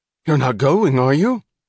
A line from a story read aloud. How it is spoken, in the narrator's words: he cried to his passengers